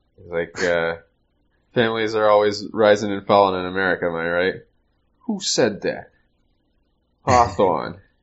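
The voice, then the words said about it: Boston accent. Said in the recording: “your Boston accent has only improved”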